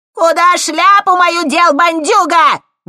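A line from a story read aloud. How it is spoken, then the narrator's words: Old woman's loud shriek. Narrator (Russian): громко заверещала старуха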